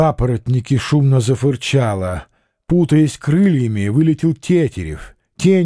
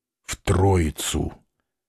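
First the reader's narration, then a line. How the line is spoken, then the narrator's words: Through gritted teeth. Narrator (Russian): Петр проговорил сквозь зубы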